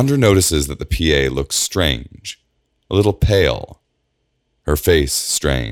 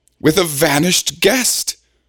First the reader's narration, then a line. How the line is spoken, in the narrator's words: Evander exclaims